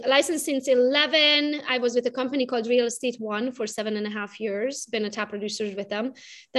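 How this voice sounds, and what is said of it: Romanian accent. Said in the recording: “I'm originally from Romania, if you can hear it from my accent.”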